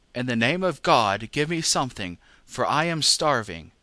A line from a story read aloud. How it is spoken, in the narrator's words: the beggar cried